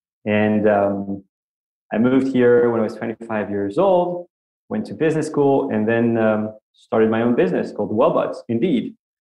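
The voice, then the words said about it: French accent in English. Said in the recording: “As you can hear from my accent, I grew up in Paris, France”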